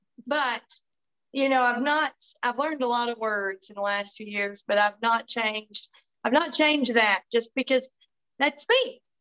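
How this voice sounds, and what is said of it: Tennessee Southern accent. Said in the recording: “I'm from Tennessee, just in case anybody wonders, you know, where's that accent, or where is she talks different”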